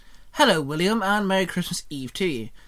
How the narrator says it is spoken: Shinon chirped

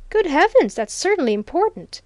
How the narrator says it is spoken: exclaimed Felpham

